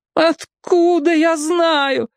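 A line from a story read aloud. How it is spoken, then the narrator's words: Sorrowful howl. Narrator (Russian): горестно взвыла голова Бамбала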